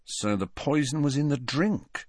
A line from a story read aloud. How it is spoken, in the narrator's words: said Fred quietly